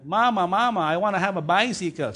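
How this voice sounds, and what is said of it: Put-on Italian accent. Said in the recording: “So it's an Italian accent, something like that, okay?”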